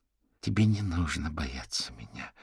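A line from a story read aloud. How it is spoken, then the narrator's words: Soft speech. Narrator (Russian): мягко произнесла Дебора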